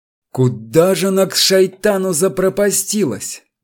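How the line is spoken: Muttering. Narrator (Russian): бормотал он

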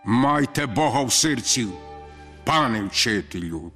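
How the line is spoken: Stern. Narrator (Ukrainian): відповів суворо Горті

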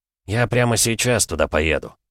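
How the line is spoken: Plain. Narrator (Russian): сказал Вейдаманис

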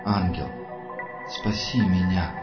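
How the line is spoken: Soundless whisper. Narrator (Russian): прошептал одними губами Анатолий

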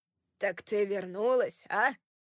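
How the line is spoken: Barked. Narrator (Russian): рявкнул он

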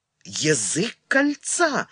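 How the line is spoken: Exclaimed. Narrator (Russian): воскликнул Гриф Рифт

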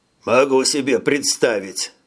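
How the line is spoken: Wry snort. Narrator (Russian): хмыкнул Хирш

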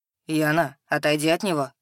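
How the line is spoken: Quiet, pointedly neutral request. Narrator (Russian): Тихим, но подчеркнуто нейтральным голосом попросил тролль

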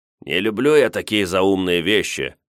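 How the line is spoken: Warlike spirit's snort. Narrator (Russian): хмыкнул воинственный дух

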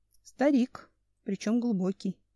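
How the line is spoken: Sighing. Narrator (Russian): вздохнул Семен

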